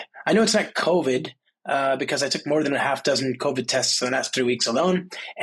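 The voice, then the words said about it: Stuffy, sick-sounding voice. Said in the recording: “I did take home a nasty number of a souvenir, a cold. You can probably hear it in my voice.”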